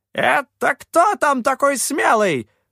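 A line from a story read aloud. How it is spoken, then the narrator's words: Distant barking shout. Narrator (Russian): рявкнул с верхней палубы Гремучка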